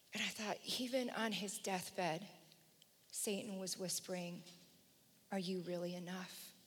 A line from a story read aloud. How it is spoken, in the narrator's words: Fear whispered